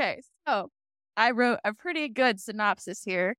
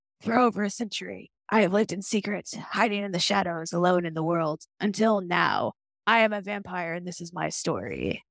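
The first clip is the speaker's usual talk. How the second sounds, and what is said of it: Imitates a TV character's voice. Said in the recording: “my Stefan impression”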